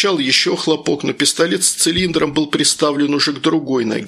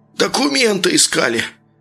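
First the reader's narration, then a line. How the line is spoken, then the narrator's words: Muffled howl. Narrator (Russian): глухо выл парень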